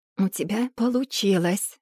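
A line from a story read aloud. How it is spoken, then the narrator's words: Hoarse sleepy mumble. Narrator (Russian): пробормотал он, охрипшим ото сна голосом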